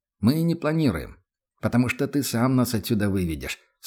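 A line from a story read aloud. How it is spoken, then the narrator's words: Calm reply. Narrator (Russian): спокойно отозвался Лекс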